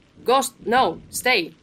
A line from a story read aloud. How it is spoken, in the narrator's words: He shouted